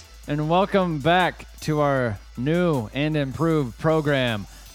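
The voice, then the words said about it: Robotic voice. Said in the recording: “talking like a robot”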